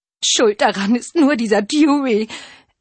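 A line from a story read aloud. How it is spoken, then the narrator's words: Whimpered. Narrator (German): wimmerte Granny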